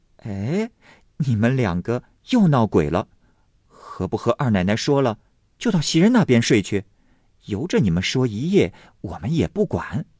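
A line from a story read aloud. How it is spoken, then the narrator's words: Laughing. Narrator (Chinese): 麝月笑道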